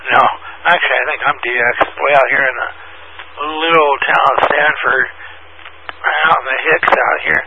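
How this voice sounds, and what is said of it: Hoarse, strained voice. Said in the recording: “Doggone, I'm losing my voice again.”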